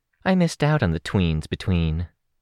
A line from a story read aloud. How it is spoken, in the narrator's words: Monokeros said wistfully